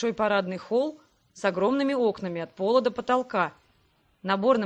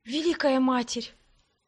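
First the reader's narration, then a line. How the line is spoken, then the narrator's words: Breaking whisper. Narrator (Russian): Срывающимся шепотом произнесла я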